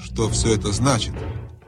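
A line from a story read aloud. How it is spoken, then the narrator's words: Menacing question. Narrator (Russian): грозно спросила королева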